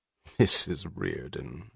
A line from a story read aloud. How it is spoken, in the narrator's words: she chuckled